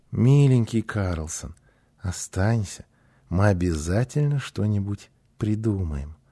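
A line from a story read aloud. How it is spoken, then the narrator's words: Joyful, tender request. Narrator (Russian): Гунила с радостью ласково попросила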